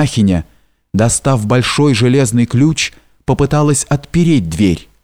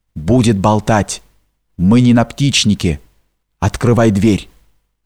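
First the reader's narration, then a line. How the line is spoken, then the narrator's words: Rough whisper. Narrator (Russian): Михель грубо прервал эти причитания, сказав сестре шепотом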